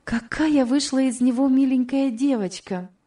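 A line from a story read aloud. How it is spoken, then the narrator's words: Exclaimed. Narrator (Russian): воскликнула Элиза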